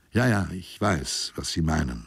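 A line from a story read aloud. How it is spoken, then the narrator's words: Plain. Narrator (German): sagte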